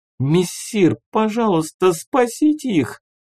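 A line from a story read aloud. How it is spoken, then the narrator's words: Sobbing plea. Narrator (Russian): зарыдала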